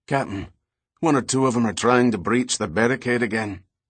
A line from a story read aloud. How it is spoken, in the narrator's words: the ship's quartermaster stated in a thick Scottish accent